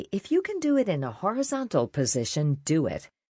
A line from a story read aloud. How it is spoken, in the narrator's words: we would laughingly say